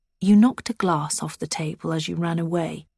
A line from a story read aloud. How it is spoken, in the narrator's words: Edwin says quietly